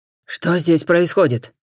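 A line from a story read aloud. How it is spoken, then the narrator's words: Barked. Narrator (Russian): рявкнул один из них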